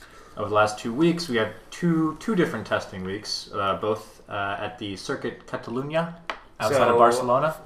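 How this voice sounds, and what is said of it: Put-on accent on place names. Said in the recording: “Very nice accent.”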